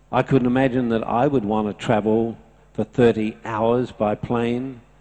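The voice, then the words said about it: Australian accent. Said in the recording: “that guy from Australia. I didn't like his accent.”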